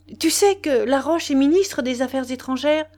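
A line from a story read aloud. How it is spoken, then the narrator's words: Exclaiming. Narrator (French): Elle s'écria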